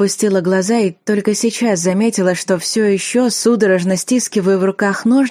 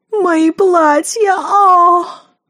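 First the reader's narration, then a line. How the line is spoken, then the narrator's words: Shrill, mock fear. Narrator (Russian): Она в приторном страхе ... пронзительно закричала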